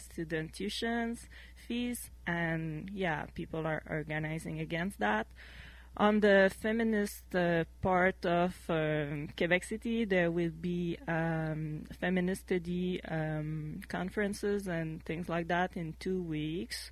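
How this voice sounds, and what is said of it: Strong French accent. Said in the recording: “my poor English and strong French accent”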